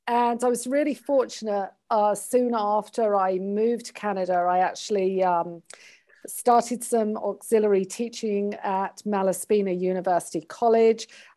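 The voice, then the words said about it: British accent. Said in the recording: “I started my career as a hairstylist many moons ago in the UK, and then emigrated to Canada ... I am truly Canadian apart from this accent.”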